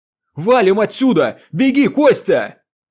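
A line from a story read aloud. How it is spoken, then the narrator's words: Yell. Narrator (Russian): Заорал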